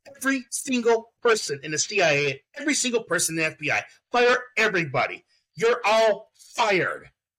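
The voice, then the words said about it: Good impression of a politician. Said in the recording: “That's a good impression of Trump there. ... it was a good impression for Trump there.”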